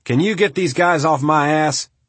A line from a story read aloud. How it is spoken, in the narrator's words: the commander called out over the radio